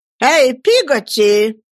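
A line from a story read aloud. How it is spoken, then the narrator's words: Shout. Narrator (Russian): крикнула мисс Бетси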